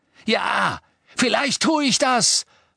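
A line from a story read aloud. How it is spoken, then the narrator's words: Shouted. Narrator (German): schrie Ron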